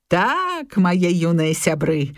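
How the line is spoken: Smiling reply. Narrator (Belarusian): усміхнуўся ў адказ Крумкач

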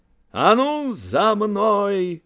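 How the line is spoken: Shouting. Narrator (Belarusian): крыкнуў ён

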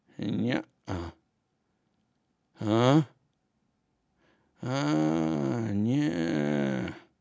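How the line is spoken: Quiet speech. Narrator (Belarusian): ціха сказаў ён

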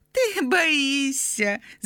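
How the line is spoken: Little fairy laughing, interrupting. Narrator (Belarusian): засмеявшись, перебила я ее маленькая фея

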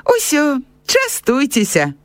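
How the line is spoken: Cheerful offer. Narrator (Belarusian): весела прапанаваў настаўнік

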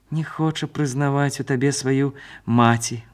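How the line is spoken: Smiling. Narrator (Belarusian): усміхнуўся ён

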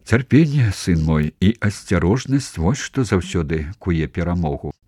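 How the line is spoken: Soft voice. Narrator (Belarusian): мяккім голасам сказаў Генрых

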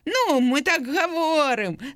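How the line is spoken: Laughing. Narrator (Belarusian): засмяяўся Лёня

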